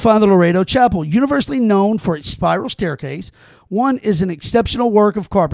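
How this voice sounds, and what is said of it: Usual voice. Nothing is said of it.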